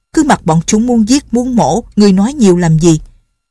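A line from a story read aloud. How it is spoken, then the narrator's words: Sharp scolding shout. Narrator (Vietnamese): lão họ Triệu quát như vậy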